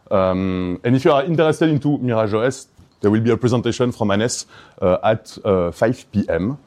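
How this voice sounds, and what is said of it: Belgian accent. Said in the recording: “you may notice to my accent that I come from Belgium”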